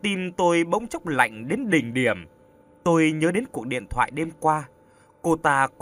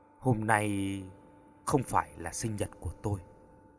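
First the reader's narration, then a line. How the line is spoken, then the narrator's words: Despairing mutter. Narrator (Vietnamese): Cô lẩm bẩm gần như tuyệt vọng, nói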